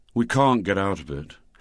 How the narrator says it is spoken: said Douglas with a sigh

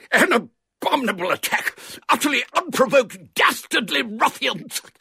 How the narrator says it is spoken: he stopped to splutter because his mouth was full of coal dust

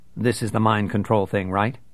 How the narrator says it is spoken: asked Bruce

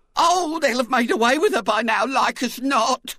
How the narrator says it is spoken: wailed Mrs

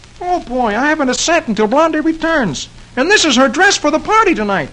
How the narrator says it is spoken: Dagwood exclaims

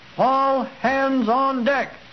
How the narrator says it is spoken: Captain Mosquito heard the lookout shout

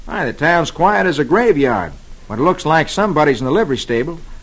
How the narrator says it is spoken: Roy exclaims

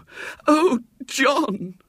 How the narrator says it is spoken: wailed Mrs

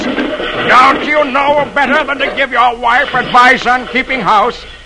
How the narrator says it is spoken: Dagwood yells for help

